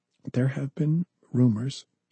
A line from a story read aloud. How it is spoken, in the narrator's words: she whispered